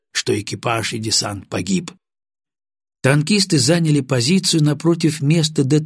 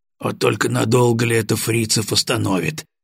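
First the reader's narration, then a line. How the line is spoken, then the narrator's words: Grumbling. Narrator (Russian): проворчал Баранов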